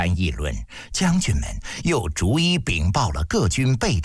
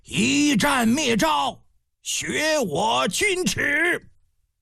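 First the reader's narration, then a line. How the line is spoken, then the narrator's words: Roar in unison. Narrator (Chinese): 大将们齐声一吼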